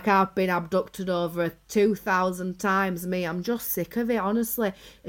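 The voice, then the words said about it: Strong put-on Yorkshire accent. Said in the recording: “She's got a right strong Yorkshire accent.”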